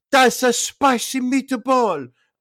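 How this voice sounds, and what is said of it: Put-on Italian accent. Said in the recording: “Why did I pronounce that with an Italian accent?”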